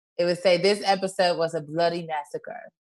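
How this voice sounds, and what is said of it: Put-on British accent. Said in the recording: “in my British accent”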